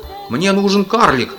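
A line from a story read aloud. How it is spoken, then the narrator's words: Male shouting. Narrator (Russian): кричал он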